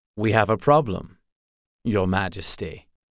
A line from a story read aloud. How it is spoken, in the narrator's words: said Conroy Geralt smoothly